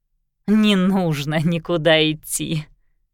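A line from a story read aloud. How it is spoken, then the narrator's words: Laughing. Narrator (Russian): рассмеялась Марианна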